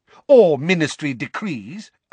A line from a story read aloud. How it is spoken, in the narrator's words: amended Fudge angrily